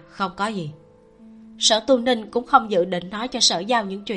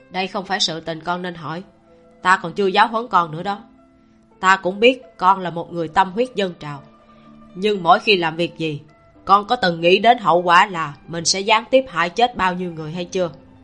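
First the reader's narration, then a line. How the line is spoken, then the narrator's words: Stern. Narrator (Vietnamese): Sở Tu Ninh nghiêm nghị nói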